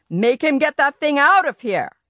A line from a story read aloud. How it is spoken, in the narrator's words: Yarby boomed